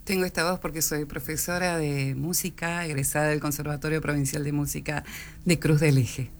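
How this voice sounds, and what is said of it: Smooth announcer-like voice. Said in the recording (Spanish): “voz de locutora”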